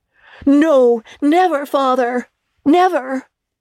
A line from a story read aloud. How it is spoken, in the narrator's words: they all cried again